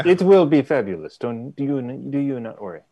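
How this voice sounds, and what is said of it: Put-on character accent. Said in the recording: “practicing my accent. ... you're doing the Medusa accent.”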